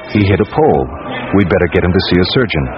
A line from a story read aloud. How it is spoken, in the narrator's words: a man calmly says